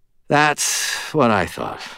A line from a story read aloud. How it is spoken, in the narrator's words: I sighed